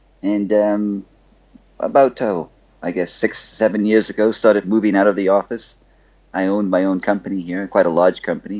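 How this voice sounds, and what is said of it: Bahamian accent. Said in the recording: “you can probably tell from my accent that I am um, not exactly from the U.S. I'm from the Bahamas.”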